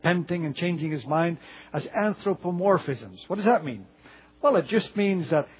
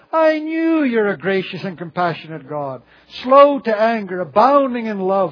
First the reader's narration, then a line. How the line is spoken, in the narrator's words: he cried, complaining